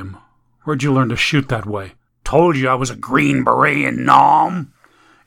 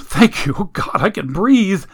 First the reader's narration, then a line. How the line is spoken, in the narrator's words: The man gasped